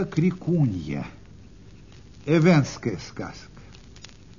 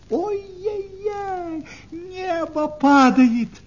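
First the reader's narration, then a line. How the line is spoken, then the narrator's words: Shouting in alarm. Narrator (Russian): закричала куропаточка-крикунья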